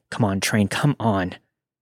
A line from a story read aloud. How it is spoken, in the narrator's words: anxiously thinking